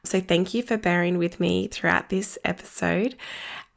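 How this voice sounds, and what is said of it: Voice sounds a bit unwell. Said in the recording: “You can probably hear in my voice, I have been a little unwell.”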